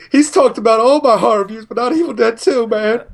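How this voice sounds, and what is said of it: Imitates another person's voice. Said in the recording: “You sounded a little like Arsenio Hall there. That's a good impersonation.”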